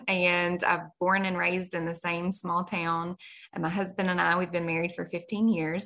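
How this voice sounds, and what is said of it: Kentucky accent. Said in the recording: “I am a Kentucky girl, which everybody can probably hear in my accent.”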